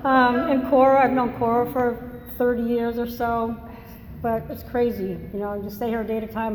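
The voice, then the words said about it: Massachusetts accent. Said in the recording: “I have an accent. I'm originally from Massachusetts”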